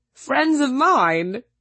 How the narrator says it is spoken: he laughed

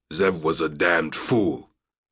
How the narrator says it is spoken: Ari snarled

